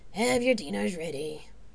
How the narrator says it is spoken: Charon said in a bored tone

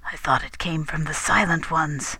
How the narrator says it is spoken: Rador was whispering

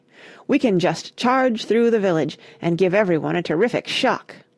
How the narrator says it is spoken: had said impatiently

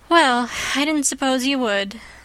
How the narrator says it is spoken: said Jane with a resigned sigh

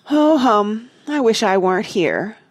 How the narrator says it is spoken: Martha said sleepily

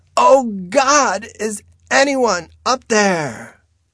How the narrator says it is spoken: She screams

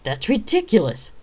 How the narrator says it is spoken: Ryan shouted before she could catch herself

